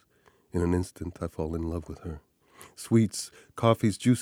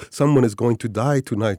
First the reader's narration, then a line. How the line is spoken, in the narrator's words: she shouts